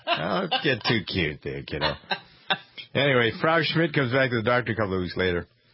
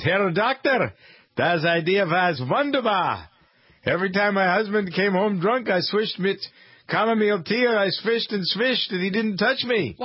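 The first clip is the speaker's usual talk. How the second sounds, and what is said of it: Put-on German accent. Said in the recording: “Your accent's great, by the way... I could have sworn there was an authentic German right there... Why do you sound kind of Jewish right now?”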